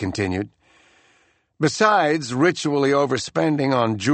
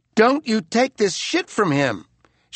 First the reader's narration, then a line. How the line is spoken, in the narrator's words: she cried at her fiancé